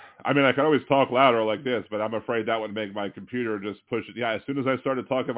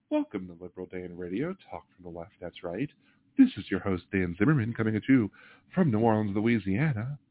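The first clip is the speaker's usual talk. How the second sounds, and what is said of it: Smooth NPR-style radio voice. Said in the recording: “do my NPR voice”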